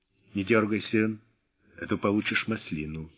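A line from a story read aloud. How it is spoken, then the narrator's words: Quiet, very confident. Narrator (Russian): тихо и очень уверенно сказал он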